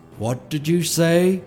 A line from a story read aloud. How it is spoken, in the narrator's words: he rumbled, his mouth twisted in a snarl